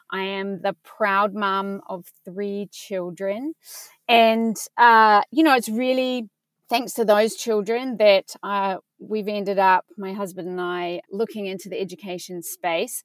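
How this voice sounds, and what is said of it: Slight New Zealand accent. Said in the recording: “in case you're hearing a little bit of an accent, is I actually grew up in New Zealand”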